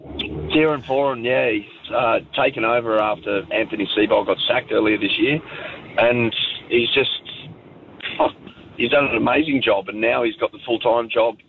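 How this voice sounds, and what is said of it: Rough, unwell-sounding voice. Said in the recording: “sorry about my voice, it's a bit cold over here”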